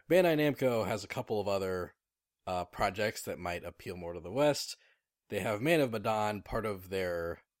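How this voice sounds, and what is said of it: Slightly scratchy voice. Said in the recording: “my voice is a little scratchy from doing that Vegeta voice.”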